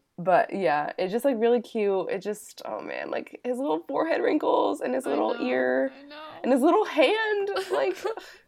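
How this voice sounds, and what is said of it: Sick, rough-sounding voice. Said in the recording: “Oh, my God, my voice. ... I'm sick. So, like, my voice is just a mess right now.”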